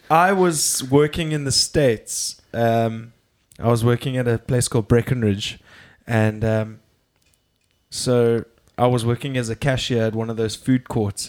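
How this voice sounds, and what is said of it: South African accent. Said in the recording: “that's a interesting accent. Where are you from? So I said, I'm from South Africa.”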